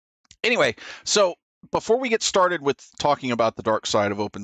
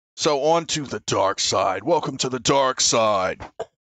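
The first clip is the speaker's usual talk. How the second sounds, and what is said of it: Poor Darth Vader impression. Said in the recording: “That's my horrible Darth Vader impression.”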